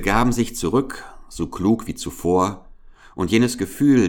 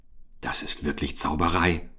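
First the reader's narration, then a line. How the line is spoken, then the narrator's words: Whispered. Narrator (German): flüsterte Oskar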